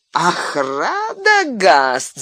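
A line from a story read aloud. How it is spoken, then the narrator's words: Loud laughter. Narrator (Russian): захохотал он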